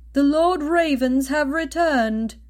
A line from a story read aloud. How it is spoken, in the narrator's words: the dwarf called out from the other room